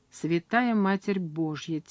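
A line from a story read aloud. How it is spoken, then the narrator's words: Quiet. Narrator (Russian): тихо сказал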